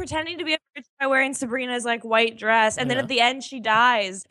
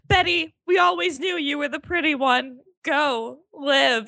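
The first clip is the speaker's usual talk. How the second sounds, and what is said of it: Impression of a character's voice. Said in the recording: “your impression of the character”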